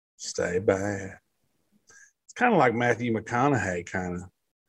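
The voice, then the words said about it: Imitates another person's voice. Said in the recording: “Is that your new impression? Matthew McConaughey?”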